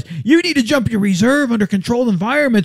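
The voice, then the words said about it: Imitates another person's voice. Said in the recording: “I'm mocking ... doing my Lori impersonation”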